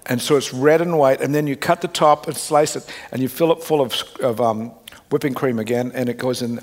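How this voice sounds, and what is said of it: Australian accent. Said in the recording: “I'm talking Australian, just talking about it. Can you hear it coming out?”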